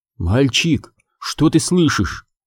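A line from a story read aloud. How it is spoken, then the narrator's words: Whispered question. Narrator (Russian): шепотом спрашивает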